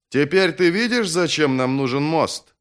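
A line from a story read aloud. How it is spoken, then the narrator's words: Shouted into ear. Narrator (Russian): крикнул ему в ухо бояз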